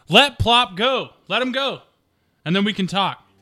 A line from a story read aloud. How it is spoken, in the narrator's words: yell out, say